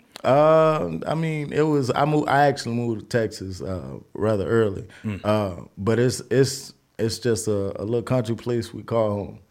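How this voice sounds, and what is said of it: Southern Louisiana accent. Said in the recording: “we gotta address that accent, bro. Where you from? ... From Monroe, Louisiana.”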